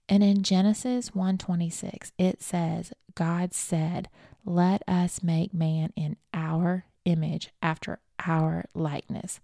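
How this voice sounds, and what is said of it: Speaks with a noticeable accent. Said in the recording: “if you're having a hard time because of my accent”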